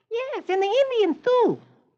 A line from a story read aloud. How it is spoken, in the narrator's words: little Michael chirps